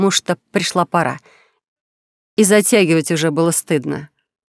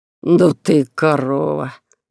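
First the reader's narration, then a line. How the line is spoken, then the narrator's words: Groaning young man. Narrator (Russian): простонал парень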